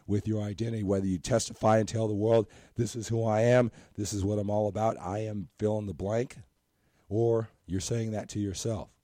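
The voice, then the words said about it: Strained, worn-out voice. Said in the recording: “my voice isn't up to, you know, it's total number 10 out of 10 as far as my voice qualities are concerned ... I start losing my voice because I do a lot of talking”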